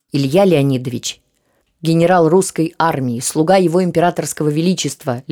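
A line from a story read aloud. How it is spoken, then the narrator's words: Icy tone. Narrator (Russian): ледяным тоном продолжал Долгоруков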